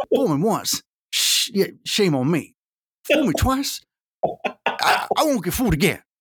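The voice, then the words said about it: Imitates another person's voice. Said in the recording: “your Bush impersonation”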